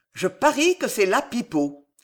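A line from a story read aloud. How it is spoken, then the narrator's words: Old veteran's exclamation. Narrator (French): s'écria le vieux routier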